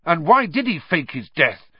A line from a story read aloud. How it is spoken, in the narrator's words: said furiously